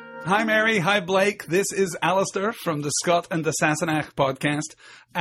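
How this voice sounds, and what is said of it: Usual voice. Nothing is said of it.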